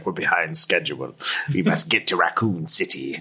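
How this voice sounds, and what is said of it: Impression of villain Wesker's voice. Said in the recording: “That was my Wesker impression.”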